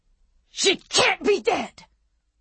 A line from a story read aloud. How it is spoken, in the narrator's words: Annie Wilkes shrieked at him